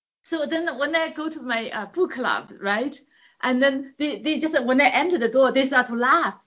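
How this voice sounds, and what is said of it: Strong accent. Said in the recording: “my accent is still strong and can never get rid of it”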